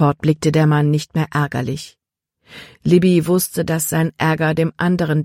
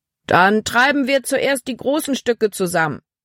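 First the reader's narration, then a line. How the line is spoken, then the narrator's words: Called out. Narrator (German): rief Kapitän Norstad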